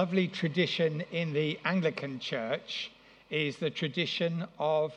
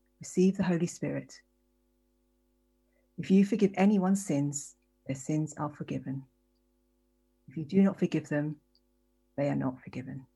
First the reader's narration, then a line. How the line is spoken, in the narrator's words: he breathed on them and said